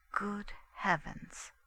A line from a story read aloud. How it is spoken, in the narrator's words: I said it quite quietly